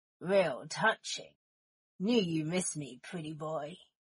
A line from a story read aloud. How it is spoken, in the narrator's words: a voice growled